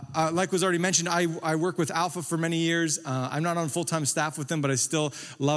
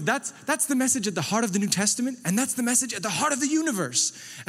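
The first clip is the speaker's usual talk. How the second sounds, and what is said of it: Imitated British accent. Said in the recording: “Nicky Gumbel impressions ... like Nicky Gumbel. So it's a British accent. ... Don't be upset if I get it wrong.”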